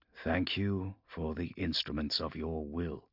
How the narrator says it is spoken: he murmured as he read

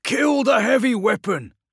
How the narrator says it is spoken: shouted Mericus

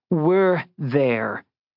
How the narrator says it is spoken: Jess corrected savagely

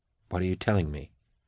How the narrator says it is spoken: Max asked quietly

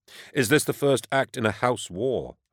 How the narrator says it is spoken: I said

